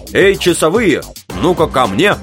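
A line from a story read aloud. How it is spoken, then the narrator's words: Commanding admiral's bark. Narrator (Russian): Билл рявкнул настоящим адмиральским голосом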